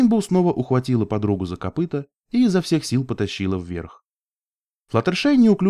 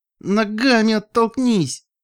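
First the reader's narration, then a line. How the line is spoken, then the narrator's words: Strained, through gritted teeth. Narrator (Russian): выдохнула Рейнбоу через стиснутые от напряжения зубы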